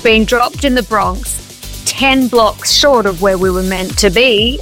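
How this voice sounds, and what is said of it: Strong Australian accent. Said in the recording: “my accent is strong now? ... my Aussie accent”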